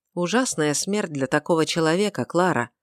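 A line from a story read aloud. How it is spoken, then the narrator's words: Quiet, after a pause. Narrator (Russian): произнес, наконец, негромко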